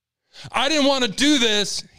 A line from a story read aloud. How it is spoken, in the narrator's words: he yelled